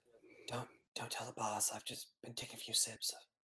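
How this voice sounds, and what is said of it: Raspy character voice. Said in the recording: “just a little raspy is all ... throat-destroying juice”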